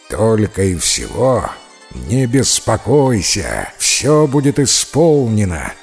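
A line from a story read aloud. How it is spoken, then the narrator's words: Terrifying growl. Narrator (Russian): ответил львиный король и зарычал страшным голосом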